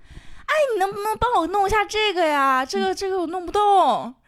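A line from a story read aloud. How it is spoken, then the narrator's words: Calling out. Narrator (Chinese): 我在门口喊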